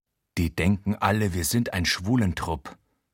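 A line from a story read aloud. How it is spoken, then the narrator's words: Murmured. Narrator (German): raunt Achim in altersgemäßem Vokabular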